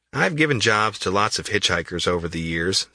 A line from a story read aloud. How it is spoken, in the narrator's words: says Westerberg